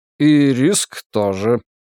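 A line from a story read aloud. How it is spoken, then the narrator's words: Grunt. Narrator (Russian): хмыкнул консул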